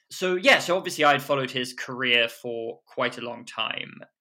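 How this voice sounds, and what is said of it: British accent. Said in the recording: “I am British, as you can hear from the accent”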